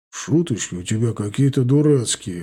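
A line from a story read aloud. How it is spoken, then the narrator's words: Grumbled mutter. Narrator (Russian): буркнул Женя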